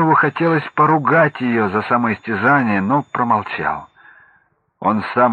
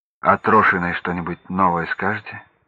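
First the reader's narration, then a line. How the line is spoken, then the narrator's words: Plain. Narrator (Russian): спросил он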